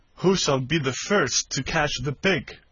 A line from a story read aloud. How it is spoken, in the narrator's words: laughing with glee, and saying one to another